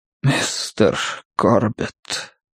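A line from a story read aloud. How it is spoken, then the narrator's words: Weak ghostly whisper. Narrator (Russian): прошептал он слабым, почти призрачным голосом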